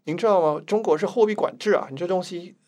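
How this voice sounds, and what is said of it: Imitated mainland Chinese accent. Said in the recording (Chinese): “抱歉，我学一下口音。”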